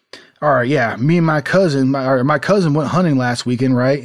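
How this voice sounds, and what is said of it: Put-on redneck accent. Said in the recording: “I'm doing a redneck accent”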